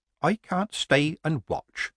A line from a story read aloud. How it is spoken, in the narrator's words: Granny said quietly